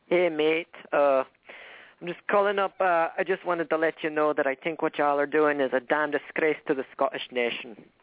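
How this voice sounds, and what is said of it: Poorly done put-on accent. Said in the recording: “That doesn't sound like a very good accent to me”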